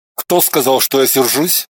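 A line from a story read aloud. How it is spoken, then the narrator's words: Gruff mutter. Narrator (Russian): буркнул он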